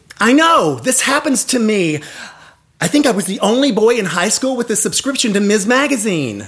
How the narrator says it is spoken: I blurt out

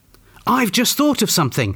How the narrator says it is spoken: exclaimed Janet, sounding even more important and even more awful

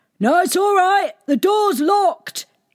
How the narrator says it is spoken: shouted

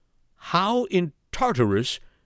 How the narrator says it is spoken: cried Flambeau

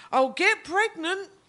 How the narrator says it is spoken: I shout, trying hard not to blush

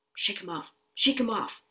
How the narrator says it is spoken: he would mutter

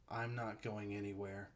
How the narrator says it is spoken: Bo replied evenly

